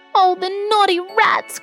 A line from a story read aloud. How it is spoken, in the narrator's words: cried Babette, bursting into tears